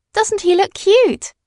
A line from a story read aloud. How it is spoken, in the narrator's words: cried Madeline